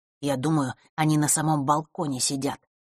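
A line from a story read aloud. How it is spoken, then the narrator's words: Whisper in the ear. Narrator (Russian): прошептал Лёшка на ухо Василисе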